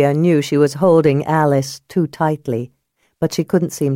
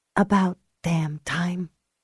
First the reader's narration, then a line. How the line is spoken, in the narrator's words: she whispered against his lips